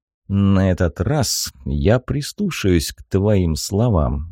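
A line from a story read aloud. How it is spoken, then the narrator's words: Through gritted teeth. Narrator (Russian): сквозь зубы процедил Хиро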